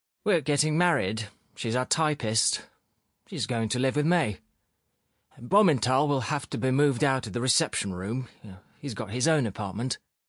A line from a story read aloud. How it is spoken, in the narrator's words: Sharikov explained in an extremely unpleasant, sullen voice